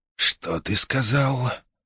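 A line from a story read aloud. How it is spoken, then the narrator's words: Soft speech. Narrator (Russian): мягко проговорил Фангва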